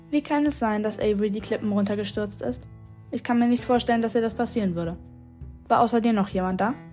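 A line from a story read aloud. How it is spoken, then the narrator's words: Toneless question. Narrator (German): fragte sie mit ihrer tonlosen Stimme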